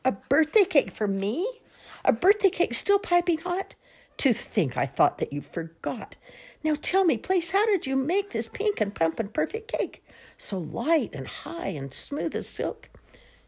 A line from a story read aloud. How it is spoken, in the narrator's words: their mother danced with glee, she cried